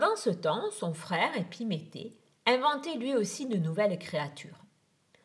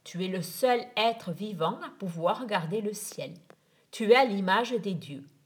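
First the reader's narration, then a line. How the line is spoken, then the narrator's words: Vibrant, resonant voice. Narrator (French): dit-il d'une voix vibrante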